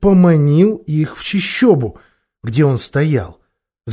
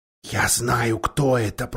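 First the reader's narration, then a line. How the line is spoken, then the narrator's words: Whisper. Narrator (Russian): прошептал Питер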